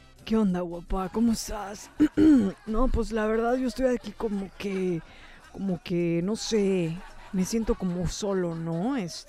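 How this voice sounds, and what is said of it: Deep, low-pitched put-on voice. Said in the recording (Spanish): “hacer la voz grave”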